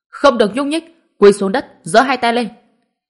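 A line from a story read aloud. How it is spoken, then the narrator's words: Police officer shouting loudly. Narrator (Vietnamese): Viên cảnh sát hô lên một tiếng, quát to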